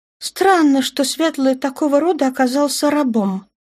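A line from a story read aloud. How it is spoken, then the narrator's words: Perfectly calm girl's reply. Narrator (Russian): ответила ему девушка совершенно спокойно на всеобщем языке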